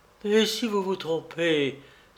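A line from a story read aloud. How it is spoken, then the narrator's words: Energetic outburst. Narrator (French): s'écria-t-elle avec un sursaut d'énergie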